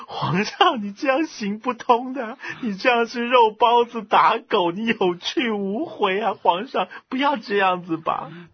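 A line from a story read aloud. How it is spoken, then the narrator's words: Crying. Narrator (Chinese): 王金啊 哭着说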